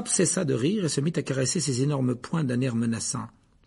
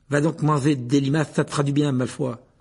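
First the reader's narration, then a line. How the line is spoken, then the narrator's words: Furious. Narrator (French): dit Ron d'un ton furieux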